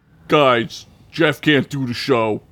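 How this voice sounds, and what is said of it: Impression of an Entourage character. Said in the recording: “my entourage impression”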